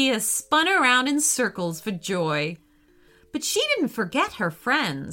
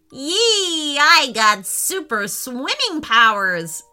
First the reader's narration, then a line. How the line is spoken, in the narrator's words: exclaimed Roxy